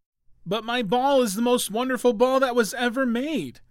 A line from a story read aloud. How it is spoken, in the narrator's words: cried the little prince